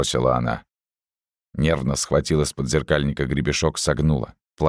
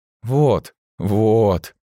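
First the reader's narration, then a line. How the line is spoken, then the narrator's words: Triumphant drawl. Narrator (Russian): Победоносно протянула Мэйв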